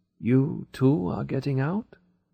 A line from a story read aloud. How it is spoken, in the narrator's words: In a tired voice he asked me